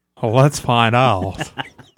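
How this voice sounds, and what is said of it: Put-on white guy voice. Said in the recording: “Do it in your white guy voice.”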